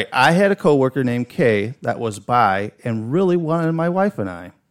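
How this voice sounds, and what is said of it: Heavy Chicago accent. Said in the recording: “my heavy Chicago accent”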